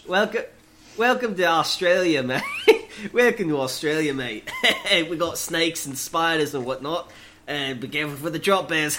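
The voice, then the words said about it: Put-on Australian accent. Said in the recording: “your Aussie accent”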